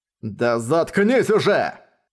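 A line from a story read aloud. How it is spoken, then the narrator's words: Furious roar. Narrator (Russian): В ярости взревел он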